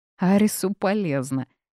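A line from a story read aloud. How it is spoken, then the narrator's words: Laughing. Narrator (Russian): расхохотался жених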